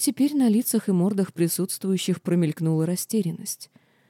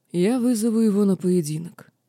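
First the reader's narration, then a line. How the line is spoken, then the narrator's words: Calm telling. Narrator (Russian): спокойно поведал мне Аршхан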